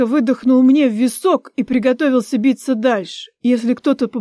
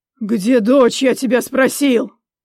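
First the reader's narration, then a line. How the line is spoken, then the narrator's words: Growling. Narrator (Russian): рычал он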